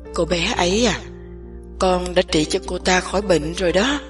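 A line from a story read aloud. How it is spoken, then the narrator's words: Slight smile. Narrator (Vietnamese): Niệm Bình hơi mỉm cười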